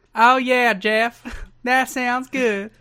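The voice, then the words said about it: Put-on Southern accent impression. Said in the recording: “Tremendous Dixie Carter impression... I will never not take the opportunity to do a southern accent.”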